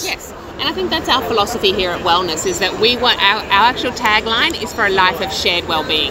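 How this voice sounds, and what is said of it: Distinctive accent. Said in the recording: “she's got a terrific accent”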